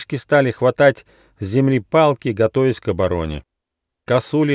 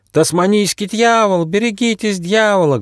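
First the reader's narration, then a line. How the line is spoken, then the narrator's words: Loud budgie cries passing by. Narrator (Russian): громко кричали волнистые попугайчики, пролетая мимо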